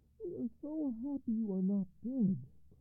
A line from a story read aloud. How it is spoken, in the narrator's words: cried the general